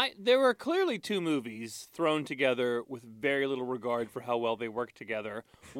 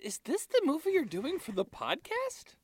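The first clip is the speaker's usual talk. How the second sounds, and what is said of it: Good impression of his wife. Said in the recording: “that's a very good impression of her”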